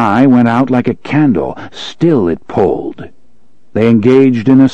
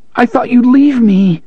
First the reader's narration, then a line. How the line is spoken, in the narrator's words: the boy was sobbing